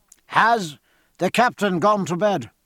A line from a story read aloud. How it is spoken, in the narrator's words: asked Stephen, cupping his hands to make his voice, curiously hoarse and weak at present, carry over the roar of sea and wind